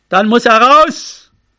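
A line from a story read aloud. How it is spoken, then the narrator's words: Shouting into the wind. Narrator (German): Er rief nach vorn in den Wind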